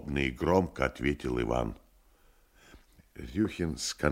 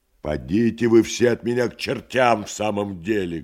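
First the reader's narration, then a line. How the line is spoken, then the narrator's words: Rough shout. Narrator (Russian): грубо закричал Иван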